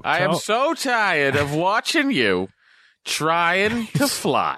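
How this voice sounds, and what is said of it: New Jersey Jewish mother voice. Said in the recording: “You sound like a New Jersey cab Jewish mother.”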